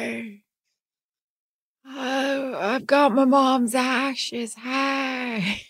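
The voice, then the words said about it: Jennifer Coolidge impression. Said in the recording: “Impersonations again. I'll take impersonations for 500 ... Jennifer Coolidge”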